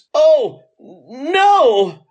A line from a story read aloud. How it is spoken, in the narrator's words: exclaims